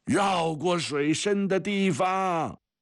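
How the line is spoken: Father's distant shout. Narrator (Chinese): 从什么地方传来父亲的喊声

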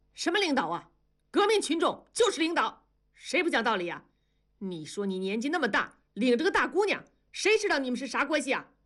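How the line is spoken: Suddenly much louder. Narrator (Chinese): 接待员的声音也突然提高了八度

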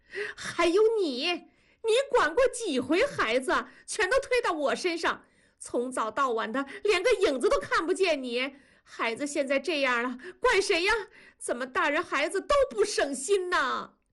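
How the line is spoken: Loud wailing sobs. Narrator (Chinese): 文丽放声大哭

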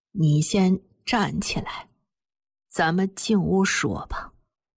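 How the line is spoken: Sighing, slow trembling voice. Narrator (Chinese): 马奶奶长长地叹了一口气，缓缓地用颤抖的声音说

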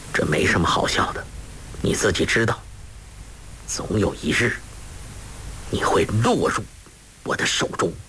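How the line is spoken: Low voice. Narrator (Chinese): 郭靖低声道

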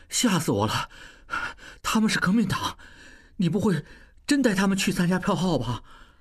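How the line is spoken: Low, catching breath. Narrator (Chinese): 小栓才缓过气来，低声道

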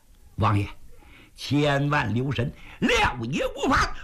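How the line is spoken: Ingratiating, smiling. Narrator (Chinese): 三爷满脸陪笑

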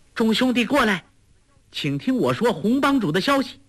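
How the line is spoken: Calling out. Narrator (Chinese): 黄蓉又叫

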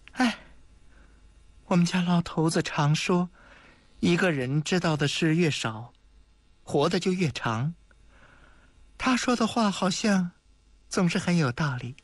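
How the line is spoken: Old woman sighing. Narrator (Chinese): 老太婆终于叹了口气

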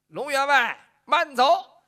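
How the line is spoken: Calling out. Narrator (Chinese): 又有人喊了一声

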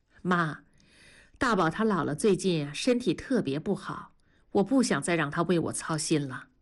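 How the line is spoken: Pause, wry bitter smile. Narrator (Chinese): 文丽停了一下，苦笑了一下说

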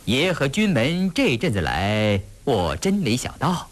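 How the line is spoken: Energized, laughing. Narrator (Chinese): 他不由得精神一振，笑着说

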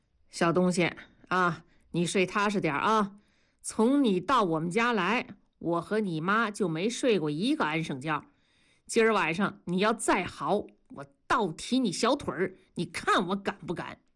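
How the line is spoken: Plain. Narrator (Chinese): 跟谁说话呢

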